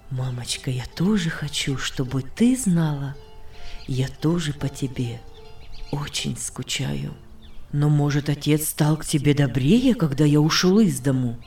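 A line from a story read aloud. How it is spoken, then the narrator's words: Calm, soft voice. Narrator (Russian): сказал своим спокойным, мягким голосом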